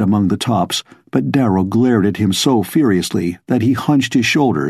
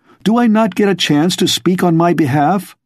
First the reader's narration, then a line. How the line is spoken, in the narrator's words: Darrow cried desperately